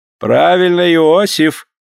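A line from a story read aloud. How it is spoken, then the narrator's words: Canon speaking laughing. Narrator (Russian): проговорил, смеясь, каноник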